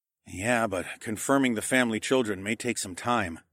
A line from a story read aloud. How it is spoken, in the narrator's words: I murmured